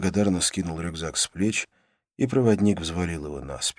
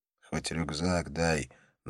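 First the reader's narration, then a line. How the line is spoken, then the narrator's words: Insistent whisper. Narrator (Russian): настойчиво шепнул он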